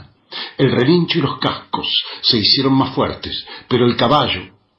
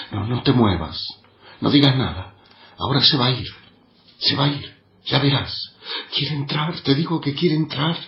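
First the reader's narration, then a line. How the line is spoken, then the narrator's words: Weakly spoken. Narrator (Spanish): dijo débilmente Zulma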